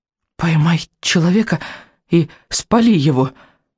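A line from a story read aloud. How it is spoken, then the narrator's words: Hoarse rasping. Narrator (Russian): хрипел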